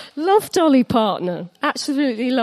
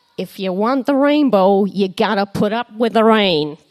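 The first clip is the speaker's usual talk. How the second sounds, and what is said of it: Put-on American accent. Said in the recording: “That's my best American accent.”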